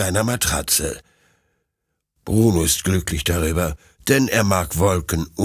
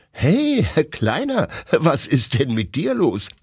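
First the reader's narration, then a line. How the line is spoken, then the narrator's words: Laughing question. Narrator (German): fragt Detlef lachend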